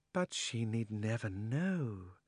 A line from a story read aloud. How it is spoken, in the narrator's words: said the witch, speaking more sweetly than you would have thought anyone with so fierce a face could speak